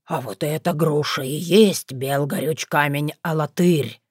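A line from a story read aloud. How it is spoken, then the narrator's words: Awed whisper. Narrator (Russian): прошептал Велимудр, не смея прикоснуться к артефакту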